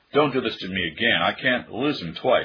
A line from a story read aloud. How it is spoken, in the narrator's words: she cried